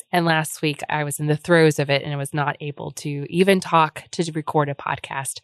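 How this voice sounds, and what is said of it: Sick, cold-affected voice. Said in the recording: “There has been a cold, as you can probably tell from my voice... I apologize for my voice this week... in spite of how I sound”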